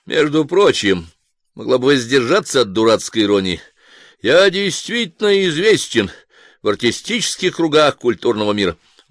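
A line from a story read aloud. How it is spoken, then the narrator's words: Dry, curt. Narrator (Russian): Хвостищев сухо сказал ей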